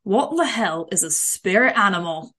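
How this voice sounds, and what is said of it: Put-on accent imitation, judged poor. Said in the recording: “That accent impression was awful.”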